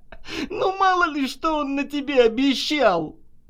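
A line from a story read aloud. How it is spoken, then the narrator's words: Sudden loud laughter. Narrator (Russian): вдруг захохотала Наташа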